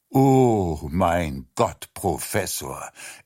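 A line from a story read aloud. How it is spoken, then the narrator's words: Sighing. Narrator (German): er seufzte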